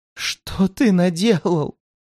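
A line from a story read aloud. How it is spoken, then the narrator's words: Barely audible through sobs. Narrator (Russian): Едва удалось мне различить сквозь ее всхлипывание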